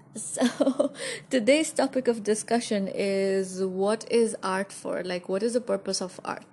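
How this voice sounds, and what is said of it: Unwell, strained voice. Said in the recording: “sorry about my voice. I'm having a little bit of flu.”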